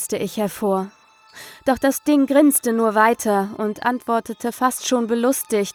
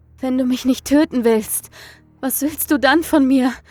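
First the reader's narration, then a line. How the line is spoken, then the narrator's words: Gasped. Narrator (German): keuchte ich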